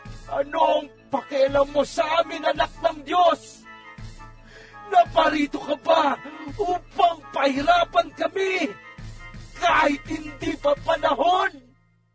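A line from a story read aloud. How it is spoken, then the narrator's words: Two men suddenly shouting. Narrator (Tagalog): Biglang nagsisigaw ang dalawang lalaki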